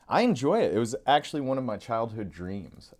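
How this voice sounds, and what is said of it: Smooth FM radio DJ voice. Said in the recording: “You've got your FM DJ voice going on. ... You got a good radio voice.”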